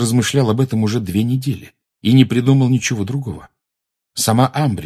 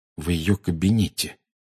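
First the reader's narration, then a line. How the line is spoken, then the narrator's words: Quiet. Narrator (Russian): тихо произнес Гарри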